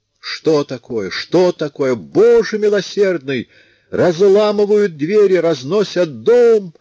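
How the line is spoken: Screaming. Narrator (Russian): орала она

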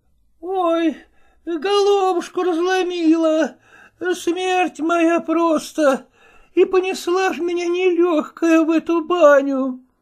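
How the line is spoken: Moaning. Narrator (Russian): стонала она

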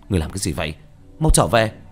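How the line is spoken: Shouted. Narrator (Vietnamese): quát lên

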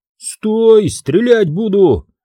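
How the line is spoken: Yelling sentry. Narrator (Russian): заорал часовой

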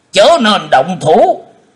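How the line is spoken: Stern shout. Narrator (Vietnamese): Khô Lâu đạo trưởng cũng đã quát lên

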